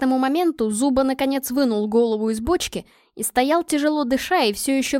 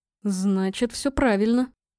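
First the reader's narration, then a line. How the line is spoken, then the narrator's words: Muttering. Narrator (Russian): пробормотал капитан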